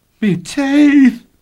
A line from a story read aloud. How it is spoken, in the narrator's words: he cried in anguish